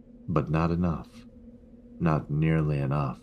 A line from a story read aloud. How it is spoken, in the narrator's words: he said